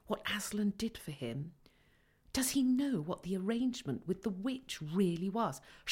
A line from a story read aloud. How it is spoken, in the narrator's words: whispered Lucy to Susan